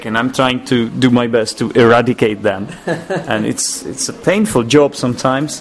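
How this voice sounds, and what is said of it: Slight Czech accent in English. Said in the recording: “Your accent in English, you've got a bit of Czech origin. ... There are some aspects in my speech that are still Czech”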